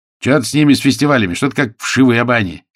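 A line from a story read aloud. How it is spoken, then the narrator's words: Angry. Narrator (Russian): сердито ответил кто-то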